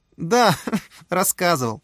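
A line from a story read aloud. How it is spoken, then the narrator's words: Laughing. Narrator (Russian): засмеялась Оксана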